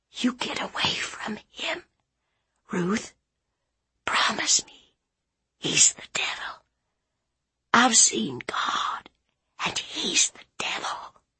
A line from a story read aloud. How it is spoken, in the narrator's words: She whispered